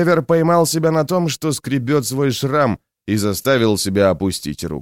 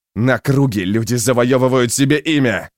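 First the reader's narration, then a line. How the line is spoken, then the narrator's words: Loud bark. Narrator (Russian): гаркнул Стур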